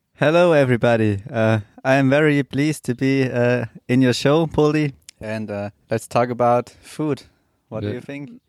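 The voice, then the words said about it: German accent. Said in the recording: “So he is German, and he might have a little bit of an accent”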